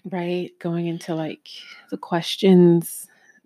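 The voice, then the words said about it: Very slow speech. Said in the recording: “Why are you talking so slow?”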